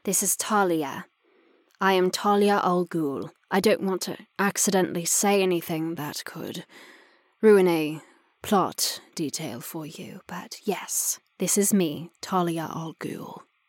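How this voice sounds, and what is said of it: Higher-pitched sassy British-accented Talia al Ghul. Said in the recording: “It's honestly not too different from my speaking voice ... it is like a little bit higher than my own speaking voice, and I have a British accent. ... So she's very sassy”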